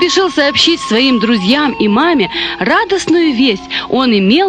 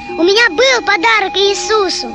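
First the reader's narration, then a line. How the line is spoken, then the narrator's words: Joyful shout. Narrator (Russian): кричал радостный мышонок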